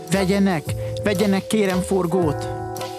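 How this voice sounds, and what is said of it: Pleading child's voice. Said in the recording (Hungarian): “Szólt könyörgő hangon a fiúcska.”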